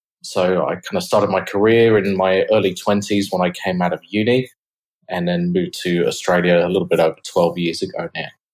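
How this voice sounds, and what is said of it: British accent. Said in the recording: “as you can probably tell from my accent, I'm from the UK originally”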